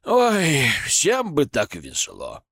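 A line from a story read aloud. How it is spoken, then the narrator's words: Envious exhale. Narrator (Russian): с завистью выдохнул эксперт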